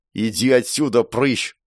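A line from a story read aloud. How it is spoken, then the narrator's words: Growled. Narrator (Russian): прорычала она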